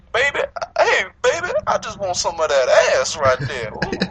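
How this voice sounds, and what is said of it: New Orleans accent. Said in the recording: “That's a good New Orleans accent”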